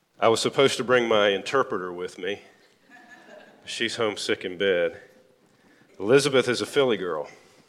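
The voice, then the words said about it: Southern American accent. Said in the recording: “I'm Southern. ... I hope the accent is not too harsh on the northern ear”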